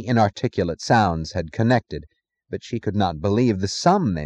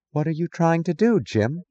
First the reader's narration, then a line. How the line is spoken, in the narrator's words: she asked, her voice incredulous and distant